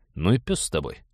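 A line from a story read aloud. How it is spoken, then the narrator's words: Tired. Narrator (Russian): устало сказал Станислав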